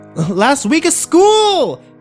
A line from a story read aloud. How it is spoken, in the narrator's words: Kimber yelled at my retreating back